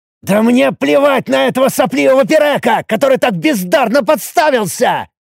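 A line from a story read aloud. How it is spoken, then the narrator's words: Indignant roar. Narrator (Russian): Негодуя взревел я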